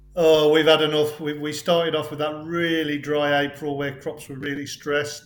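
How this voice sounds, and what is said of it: Wolverhampton-area Staffordshire accent twang. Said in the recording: “I detect a certain twang to your accent ... I'm just in South Staffordshire, so not too far from Wolverhampton, which is probably the twang you're hearing”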